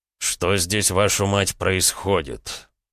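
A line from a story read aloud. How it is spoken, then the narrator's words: Quiet through teeth. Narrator (Russian): Процедил я довольно тихо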